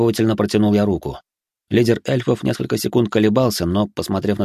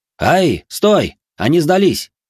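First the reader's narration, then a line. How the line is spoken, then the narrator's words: Shouting in unison. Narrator (Russian): крикнули мы с Куватом хором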